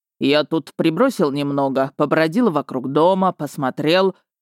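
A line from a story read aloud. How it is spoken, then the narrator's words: Booming bass. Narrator (Russian): забасил градостроитель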